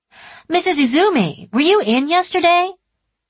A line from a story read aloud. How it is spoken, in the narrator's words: Sugawara called out loudly